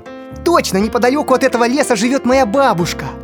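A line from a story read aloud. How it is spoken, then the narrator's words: Joyful shout. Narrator (Russian): радостно закричал Гарри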